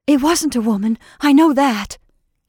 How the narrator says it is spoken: gasped Jane

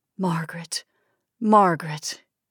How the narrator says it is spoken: he whispered

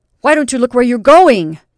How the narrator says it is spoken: demanded the red-haired person angrily

